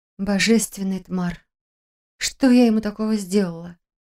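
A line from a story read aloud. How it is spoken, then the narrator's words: Muttered. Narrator (Russian): Пробормотала я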